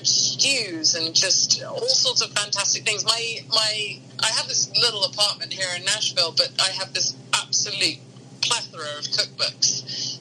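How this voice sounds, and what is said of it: British English accent. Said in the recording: “you sound very British ... a British accent”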